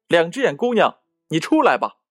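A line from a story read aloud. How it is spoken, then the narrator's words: Loud shout. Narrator (Chinese): 骑士大声喊道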